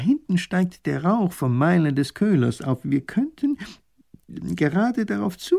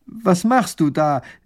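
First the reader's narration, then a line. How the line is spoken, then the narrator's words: Called out. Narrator (German): ruft der erste Minister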